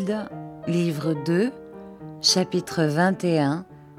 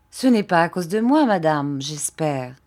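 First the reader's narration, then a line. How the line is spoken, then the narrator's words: Plain. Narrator (French): dit Monsieur Peggotty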